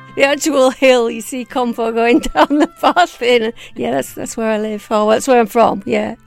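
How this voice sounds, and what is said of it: West Yorkshire accent. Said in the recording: “that accent because I absolutely love it ... I'm from Home Firth in West Yorkshire”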